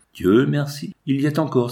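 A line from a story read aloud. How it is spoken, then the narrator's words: Exclamation. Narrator (French): s'écria-t-il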